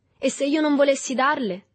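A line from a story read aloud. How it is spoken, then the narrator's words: Defiant shout, young man. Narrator (Italian): gridò con tono di sfida il ragazzotto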